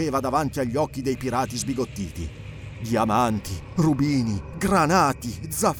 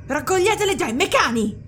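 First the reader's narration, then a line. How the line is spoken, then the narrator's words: Shrill emotional shout. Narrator (Italian): gridò con voce resa acuta dall'emozione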